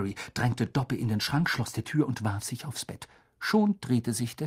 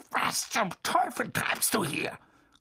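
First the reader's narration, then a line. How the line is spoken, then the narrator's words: Growled through clenched teeth. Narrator (German): knurrte Onkel Vernon mit zusammengebissenen Zähnen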